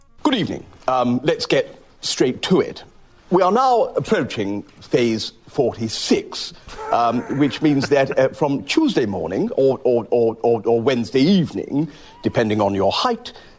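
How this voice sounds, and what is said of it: Boris Johnson impression. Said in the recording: “Matt Lucas dressed up as Boris Johnson. He does a very good impersonation.”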